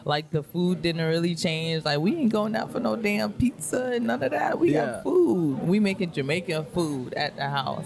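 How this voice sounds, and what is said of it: Jamaican accent. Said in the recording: “the accent is always there”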